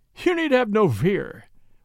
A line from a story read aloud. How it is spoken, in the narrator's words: replied Tarzan, laughing